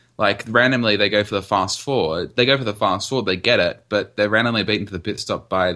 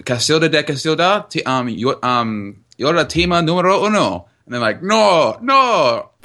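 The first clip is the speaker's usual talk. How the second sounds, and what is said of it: Put-on Spanish accent. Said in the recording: “that was a wonderful Spanish accent.”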